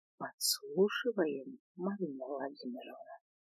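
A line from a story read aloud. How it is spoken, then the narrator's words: Whisper in ear. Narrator (Russian): Прошептала мне на ушко Свен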